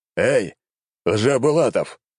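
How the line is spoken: Barked. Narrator (Russian): рыкнул император

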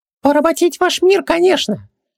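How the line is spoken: Small giggle. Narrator (Russian): мелко хихикнул Джин

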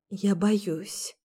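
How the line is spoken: Whispered. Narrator (Russian): прошептала

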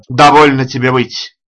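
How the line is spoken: Sharp shout. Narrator (Russian): прикрикнул на него Хэрвуд

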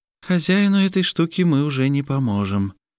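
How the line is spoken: Sighing. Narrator (Russian): вздохнула Вэлрия

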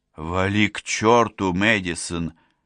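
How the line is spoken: Unimpressed grumble. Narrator (Russian): пробурчала, не особо впечатленная речью

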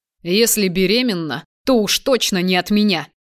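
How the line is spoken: Growling. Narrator (Russian): прорычал в ответ

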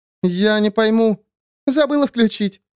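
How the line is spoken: Self-reproaching giggle. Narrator (Russian): хихикнула Бо, упрекая себя

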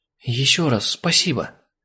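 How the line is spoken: Breathy exhale. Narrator (Russian): выдохнула Криса

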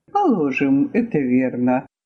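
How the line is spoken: Soft. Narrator (Russian): мягко сказал Жоржик

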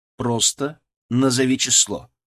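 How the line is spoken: Stern repetition. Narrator (Russian): повторил я строго

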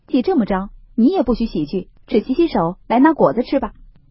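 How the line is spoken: Laughing. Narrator (Chinese): 宝玉笑道

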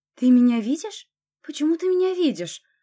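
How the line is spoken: Exclamation. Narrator (Russian): воскликнула я

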